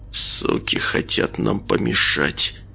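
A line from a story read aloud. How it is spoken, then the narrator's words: Through gritted teeth. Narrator (Russian): процедил Николай сквозь зубы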